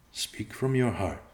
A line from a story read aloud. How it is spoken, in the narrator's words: Evenei said softly